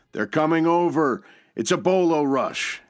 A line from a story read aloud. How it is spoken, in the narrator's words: din of battle reach a crescendo, an American yell